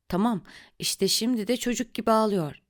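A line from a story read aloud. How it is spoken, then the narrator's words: Moaned. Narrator (Turkish): diye inlediğini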